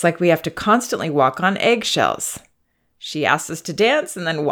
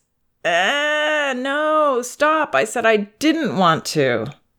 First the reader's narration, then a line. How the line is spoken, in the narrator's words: Then she whines